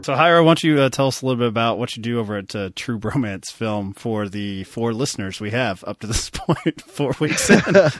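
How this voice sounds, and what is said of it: Country accent. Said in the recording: “do you think the accent will? Does that solidify me? ... Everybody knows you're a country bumpkin.”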